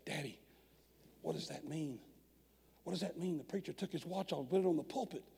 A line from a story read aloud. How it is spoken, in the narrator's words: The little boy whispered to his dad, said